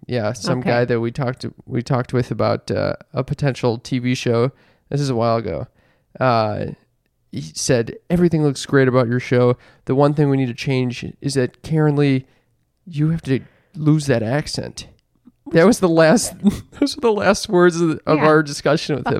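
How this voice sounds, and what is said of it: Low, relaxed, mellow tone. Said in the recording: “I'm talking in a more relaxed way ... I can't talk very quickly in a low, relaxed tone ... It sounds like you're a little bit like almost like you're on drugs”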